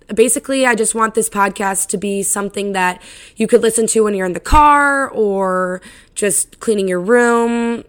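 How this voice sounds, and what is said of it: Raspy voice. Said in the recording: “my voice is raspy ... I talk so fucking loud and I lose my voice so easily”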